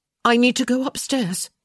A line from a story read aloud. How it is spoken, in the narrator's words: she blurted out